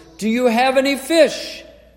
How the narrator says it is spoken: Jesus stands on the shore and he shouts across the water

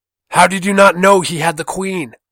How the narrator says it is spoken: rose his voice over them

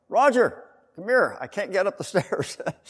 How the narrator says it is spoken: I had to yell

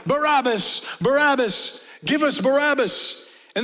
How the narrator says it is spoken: the people shouting

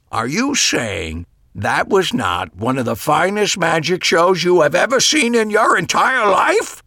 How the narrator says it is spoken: He said, his voice rising to an incredulous pitch

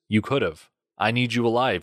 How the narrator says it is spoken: said

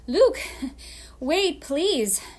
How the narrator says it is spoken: she shouted out

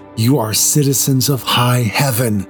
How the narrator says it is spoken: whisper

